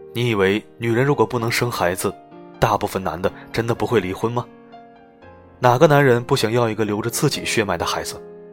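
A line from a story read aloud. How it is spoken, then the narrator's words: Flat, indifferent. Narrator (Chinese): 他淡淡的说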